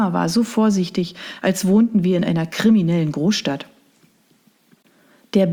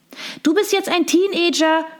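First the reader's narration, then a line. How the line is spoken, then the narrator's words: Tinkling bell-like voice. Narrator (German): rief sie mit ihrer Stimme, die wie das Klingeln winziger Glocken klang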